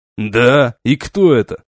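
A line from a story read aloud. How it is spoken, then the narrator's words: Sarcastic. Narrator (Russian): Язвительно проговорил капитан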